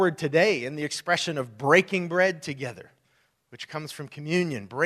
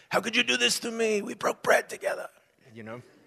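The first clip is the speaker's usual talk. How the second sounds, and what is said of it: Bad New York mobster accent. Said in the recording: “like a New York mobster movie ... that was the worst New York accent ever”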